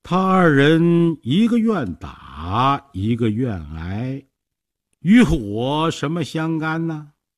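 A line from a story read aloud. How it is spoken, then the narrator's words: Slow, calm, smiling. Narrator (Chinese): 孔明微微一笑，慢慢地说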